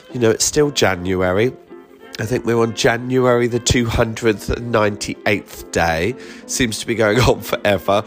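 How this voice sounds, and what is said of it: Congested, blocked-nose voice. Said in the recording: “I've got a bit of a cold... if I do sound a little bit bunged up, I am.”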